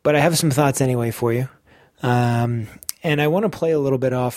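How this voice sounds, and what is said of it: Tired, lackluster unwell voice. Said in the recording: “I've been pretty unwell ... I've been feeling pretty rough ... My voice is a bit lackluster, and I've been pretty tired.”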